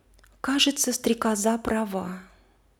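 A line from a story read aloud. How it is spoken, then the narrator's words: Quiet, thoughtful. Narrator (Russian): розочка через некоторое время тихо произнесла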